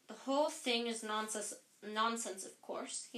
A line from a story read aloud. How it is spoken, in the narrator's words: he said